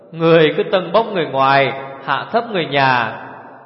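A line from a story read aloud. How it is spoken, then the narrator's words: Loud laughing. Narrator (Vietnamese): Hổ Thiết Hoa cười lớn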